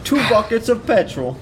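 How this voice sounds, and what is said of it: Weak attempt at British accent. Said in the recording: “I don't know what accent that was. I've done better British accents in this episode.”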